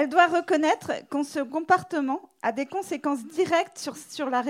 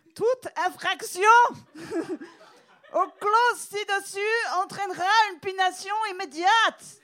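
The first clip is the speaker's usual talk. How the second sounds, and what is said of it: Mock German accent, shouting. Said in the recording (French): “accent allemand ... ton accent allemand, c'est juste tu cries”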